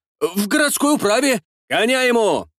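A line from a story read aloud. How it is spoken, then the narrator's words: Shouted. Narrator (Russian): выкрикнул я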